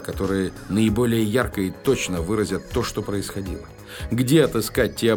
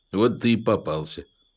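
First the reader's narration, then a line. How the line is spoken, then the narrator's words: Calm. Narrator (Russian): спокойно сказал Вовочка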